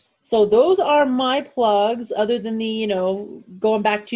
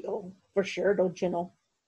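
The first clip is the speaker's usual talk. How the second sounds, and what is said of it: Put-on Minnesotan accent. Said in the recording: “our best Minnesotan accents”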